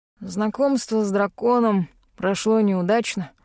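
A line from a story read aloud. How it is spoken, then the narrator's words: Old man's amused snort. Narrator (Russian): хмыкнул дедушка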